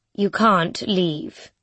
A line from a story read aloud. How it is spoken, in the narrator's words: she says calmly